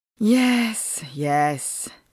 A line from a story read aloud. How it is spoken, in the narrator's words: said Heidegger, sighing